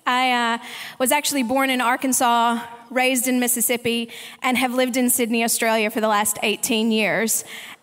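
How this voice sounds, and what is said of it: Mixed Southern US and Australian accent. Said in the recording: “my accent probably is a little messed up, some people tell me”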